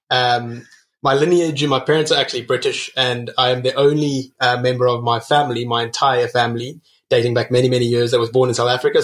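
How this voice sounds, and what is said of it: Noticeable foreign accent. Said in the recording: “I noticed an accent.”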